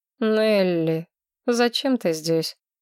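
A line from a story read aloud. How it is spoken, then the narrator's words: Weary king asking. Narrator (Russian): устало спросил король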